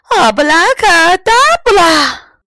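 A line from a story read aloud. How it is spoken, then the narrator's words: Loud shout. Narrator (Chinese): 大喊了一声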